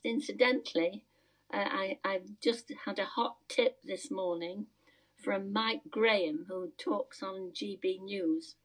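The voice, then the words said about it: Voice not yet recovered. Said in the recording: “My voice hasn't recovered yet”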